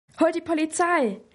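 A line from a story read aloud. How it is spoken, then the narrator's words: Hectic old woman calling. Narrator (German): rief die alte Wilma hektisch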